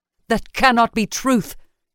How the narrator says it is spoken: Enox spat

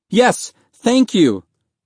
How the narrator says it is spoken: Mahmud cried

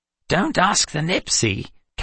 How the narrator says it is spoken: Calvin piped up

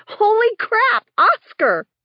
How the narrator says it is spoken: I was so thrilled to see my old friend that I yelled out

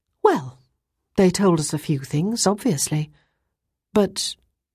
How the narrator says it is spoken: Ruth sighed and said

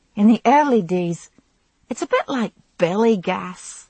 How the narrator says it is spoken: she said, laughing

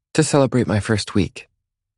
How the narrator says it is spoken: she says quickly

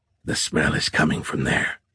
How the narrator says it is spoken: he whispered

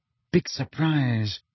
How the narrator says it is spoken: said Hermione under her breath

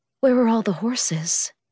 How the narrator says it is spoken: I breathed

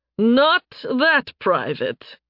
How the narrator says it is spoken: the dark elf chuckled

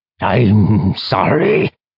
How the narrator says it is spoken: Orthos rumbled

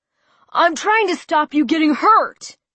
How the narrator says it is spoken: he shouted at me

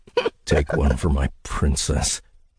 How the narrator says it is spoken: I muttered

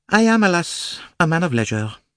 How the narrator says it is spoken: said sadly

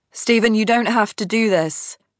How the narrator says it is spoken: I shout after him

